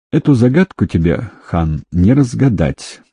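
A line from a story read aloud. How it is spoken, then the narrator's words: Sad man. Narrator (Russian): грустно проговорил мужчина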